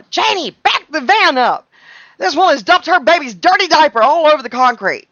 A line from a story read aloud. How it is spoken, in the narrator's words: she's yelling